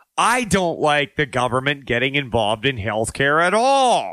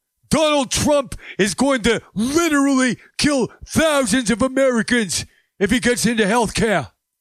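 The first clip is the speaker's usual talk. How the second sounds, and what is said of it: Imitates another person's voice. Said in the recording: “maybe I'm butchering the whole Bernie Sanders impersonation”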